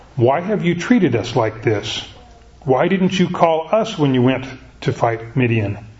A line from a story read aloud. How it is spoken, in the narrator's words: they criticized him sharply